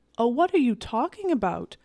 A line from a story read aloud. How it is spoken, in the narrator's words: exclaimed the young lady